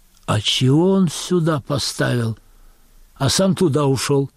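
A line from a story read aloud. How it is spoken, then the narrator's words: Loud whisper, woman. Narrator (Russian): Тетка в берете произносит громким шепотом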